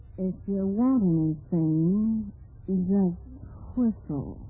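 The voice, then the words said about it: Low-voiced Humphrey Bogart impression. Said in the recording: “You sounded just like Humphrey Bogart. ... You were talking with an accent and a low voice.”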